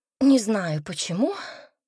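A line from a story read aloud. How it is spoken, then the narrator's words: Sighing. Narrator (Russian): вздохнула Энн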